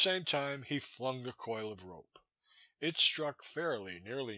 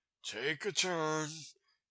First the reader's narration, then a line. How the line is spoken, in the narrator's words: said quietly